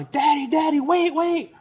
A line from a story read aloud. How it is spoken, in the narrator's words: It was so windy, my daughter starts yelling